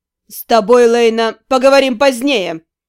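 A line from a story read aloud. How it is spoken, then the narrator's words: Bark. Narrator (Russian): рявкнул мой учитель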